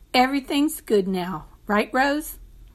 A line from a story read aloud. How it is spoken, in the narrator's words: said